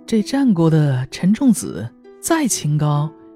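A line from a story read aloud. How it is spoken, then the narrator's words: Laughing. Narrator (Chinese): 黄英笑着说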